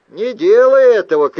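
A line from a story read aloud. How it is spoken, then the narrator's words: Shout. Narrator (Russian): крикнул я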